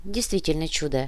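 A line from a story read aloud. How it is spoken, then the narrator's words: Grumbling. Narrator (Russian): ворчала его напарница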